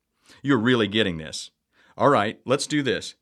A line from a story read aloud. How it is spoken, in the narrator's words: Tom said